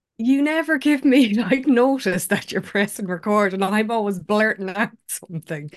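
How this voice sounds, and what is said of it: Irish accent. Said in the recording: “her beautiful Irish accent”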